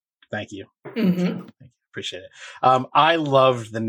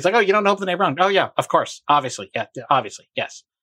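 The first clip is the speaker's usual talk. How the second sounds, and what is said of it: Imitates another person's voice. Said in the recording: “pretty good Hornsby impression there”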